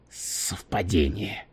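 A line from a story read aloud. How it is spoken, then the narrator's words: Unenthusiastic grumble. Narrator (Russian): проворчал Валентайн, но уже без особого энтузиазма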